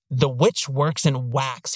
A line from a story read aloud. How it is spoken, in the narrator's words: he snarls